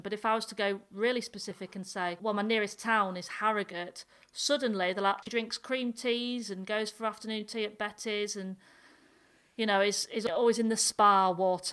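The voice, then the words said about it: North Yorkshire English accent. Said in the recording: “I'm from a tiny village in North Yorkshire, and the nearest city to me is Leeds... speak with this accent”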